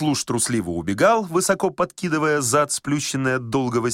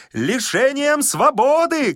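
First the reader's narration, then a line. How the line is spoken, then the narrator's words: Shouting after someone. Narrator (Russian): кричал Козлевич вдогонку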